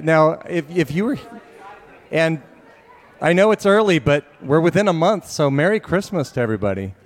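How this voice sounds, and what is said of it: Hoarse, struggling voice. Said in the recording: “I lost my voice. ... I'm still sick. ... we've got struggling voices”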